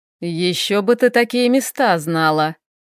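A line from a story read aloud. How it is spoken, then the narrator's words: Chuckling. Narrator (Russian): хохотнул Хэл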